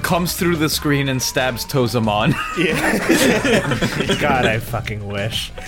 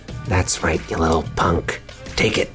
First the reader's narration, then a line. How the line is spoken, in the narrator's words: Arete is going to whisper into the goon's ear